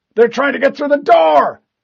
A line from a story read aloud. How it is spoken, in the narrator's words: he yelled